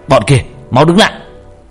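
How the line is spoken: Group shouting. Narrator (Vietnamese): Những thằng còn lại hét lên

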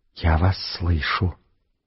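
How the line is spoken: Very quiet whisper. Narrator (Russian): Тихо-тихо-тихо дверь прошептала

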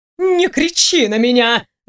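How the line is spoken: Menacing yell. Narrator (Russian): грозно проорала

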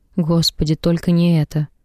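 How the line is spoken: Quiet, for one listener. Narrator (Russian): Я произношу эти слова тихо, чтобы только Бобби услышал

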